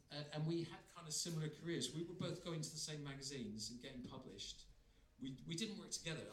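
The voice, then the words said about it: West Country English accent. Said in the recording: “It's in the West Country, that's where my accent comes from. You've got less of an accent than me”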